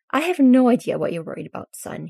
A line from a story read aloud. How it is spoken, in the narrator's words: he sighs